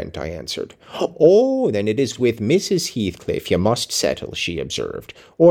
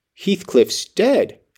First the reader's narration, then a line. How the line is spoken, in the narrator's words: I exclaimed, astonished